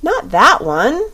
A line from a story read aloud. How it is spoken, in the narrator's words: she cried